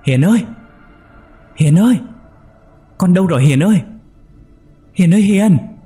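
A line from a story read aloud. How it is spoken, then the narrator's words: Frightened scream. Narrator (Vietnamese): Bà Hoa sợ quá hét lên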